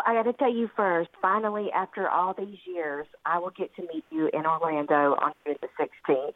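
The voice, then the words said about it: Southern drawl. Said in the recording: “I apologize for my southern drawl. ... Charming. ... adorable.”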